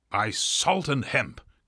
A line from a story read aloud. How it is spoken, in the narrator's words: cried Stubb